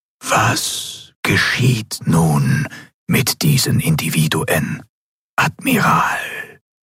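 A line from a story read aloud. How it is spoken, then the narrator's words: Ghostly whisper. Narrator (German): die gespenstische Stimme des Gouverneurs wieder direkt in ihrem Verstand flüsterte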